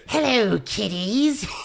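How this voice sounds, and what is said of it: Crypt Keeper character impression. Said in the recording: “We found out I could do the Crypt Keeper. ... It's pretty good. ... That's pretty good.”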